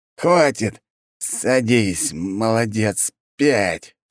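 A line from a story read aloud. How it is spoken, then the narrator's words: Hissed through teeth. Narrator (Russian): сквозь зубы прошипел учитель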